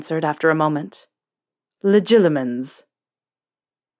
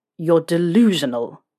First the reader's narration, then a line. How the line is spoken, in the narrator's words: Snape spat